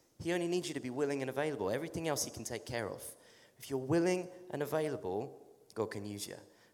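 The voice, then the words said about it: English accent. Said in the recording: “because I'm from England, I have a strange accent ... in my English accent”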